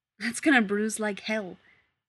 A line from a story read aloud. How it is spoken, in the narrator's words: Rodney blurts out